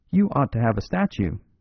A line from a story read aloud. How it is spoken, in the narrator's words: cried the Canadian, as he came back radiant